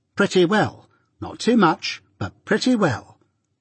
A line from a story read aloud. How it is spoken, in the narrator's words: returned my sister curtly